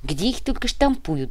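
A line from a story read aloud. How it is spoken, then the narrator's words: Sighing. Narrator (Russian): Вздохнул Иголка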